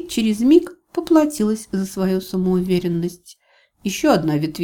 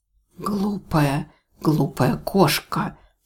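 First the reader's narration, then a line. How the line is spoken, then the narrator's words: Insinuating whisper. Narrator (Russian): Среди внезапно стихшего ветра вкрадчивый шепот прозвучал, как крик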